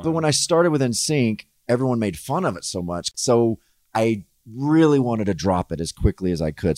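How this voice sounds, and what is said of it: Subtle gentlemanly Southern American accent. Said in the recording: “it's a very nice accent ... It sounds gentlemanly ... You have like a subtle one ... a little Southern accent”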